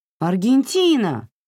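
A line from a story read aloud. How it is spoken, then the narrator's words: Exclaiming. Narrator (Russian): воскликнула Биа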